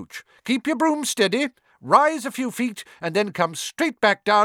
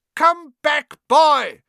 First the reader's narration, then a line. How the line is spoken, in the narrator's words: she shouted